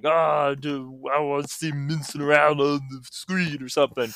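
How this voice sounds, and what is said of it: Mocking caricature voice. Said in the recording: “that's my impression of Twitter, homophobic Twitter.”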